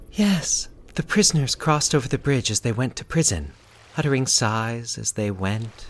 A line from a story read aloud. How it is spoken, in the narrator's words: she said dreamily